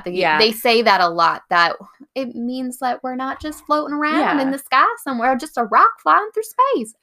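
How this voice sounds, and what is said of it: Put-on southern accent. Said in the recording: “I don't know why I'm giving them a southern accent.”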